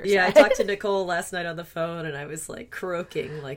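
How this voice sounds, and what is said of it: Low, husky voice with a cold. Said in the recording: “I have a little bit of a cold, so I've got some Demi Moore voice going on”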